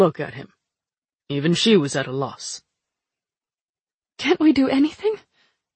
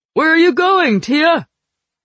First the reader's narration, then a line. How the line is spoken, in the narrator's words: Kaelin yelled behind me